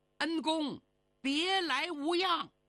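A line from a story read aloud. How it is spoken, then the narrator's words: Loud shout. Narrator (Chinese): 忽听有人高喊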